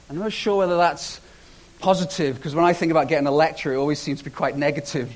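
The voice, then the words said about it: British English accent. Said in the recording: “that British guy ... his accent's a bit weird”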